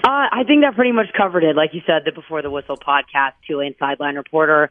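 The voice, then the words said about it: Slightly strained, recovering voice. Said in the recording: “My voice is still a little bit recovering from Saturday night's matchup.”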